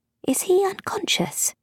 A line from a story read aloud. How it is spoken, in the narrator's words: Beth murmured